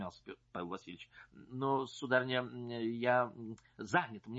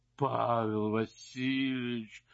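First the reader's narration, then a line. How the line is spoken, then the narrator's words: Tearful moan. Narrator (Russian): простонал барыня, и глаза ее наполнились слезами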